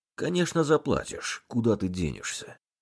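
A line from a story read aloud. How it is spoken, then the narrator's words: Calm. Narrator (Russian): Спокойно ответил помощник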